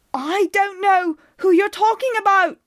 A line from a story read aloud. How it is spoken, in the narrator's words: screamed, coughing on the ash